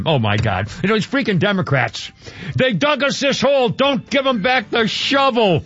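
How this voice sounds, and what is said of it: Yelling loudly. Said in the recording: “Sorry to yell. I'm yelling.”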